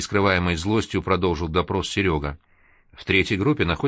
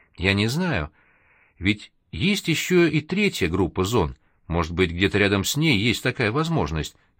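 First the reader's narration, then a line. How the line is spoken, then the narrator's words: Flustered, soothing. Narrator (Russian): растерянно попыталась его успокоить Вероника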